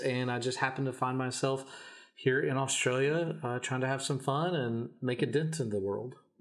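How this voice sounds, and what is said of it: American Kentucky accent. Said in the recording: “So you have an accent. It sounds like you're not from Australia.”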